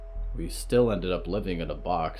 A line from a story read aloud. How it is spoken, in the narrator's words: Riot sighed